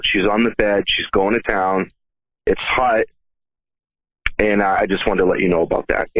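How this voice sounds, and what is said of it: Boston accent. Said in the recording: “nice Boston accent.”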